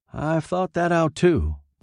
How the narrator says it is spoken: Boyette said

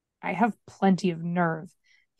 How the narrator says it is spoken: he muttered

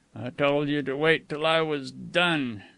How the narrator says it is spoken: Matt growled

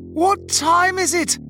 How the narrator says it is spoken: I had bellowed as I frantically beat the metal door

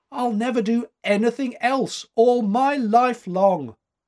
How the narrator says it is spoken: cried

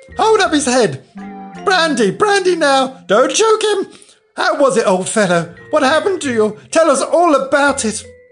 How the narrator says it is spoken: Last came a little, feeble, squeaking voice

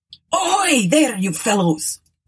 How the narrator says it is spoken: roared the skipper to the watch on deck

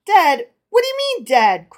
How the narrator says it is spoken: cried the rich man angrily

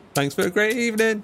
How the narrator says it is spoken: he howled

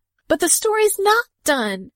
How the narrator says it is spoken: cried Udi, instantly contained

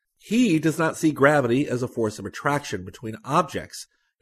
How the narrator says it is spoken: Yorhochenko says

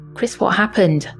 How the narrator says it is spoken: stammered, my voice trembling

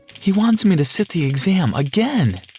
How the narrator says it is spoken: cried Molly

